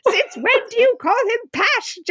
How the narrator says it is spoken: Jessica shrieked

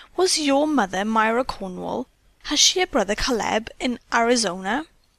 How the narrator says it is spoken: the three girls exclaimed in an excited chorus

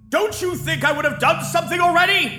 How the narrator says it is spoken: Gideon shouted, as for the first time he lost his temper

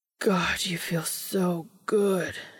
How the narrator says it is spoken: moans

